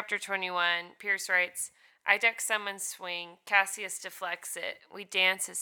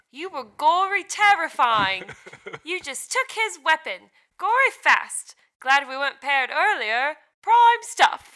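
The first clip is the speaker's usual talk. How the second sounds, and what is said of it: Put-on Cockney accent. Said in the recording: “He's like Cockney in that version. ... I like that accent. That was a good one.”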